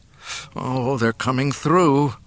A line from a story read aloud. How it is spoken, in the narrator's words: Luke groaned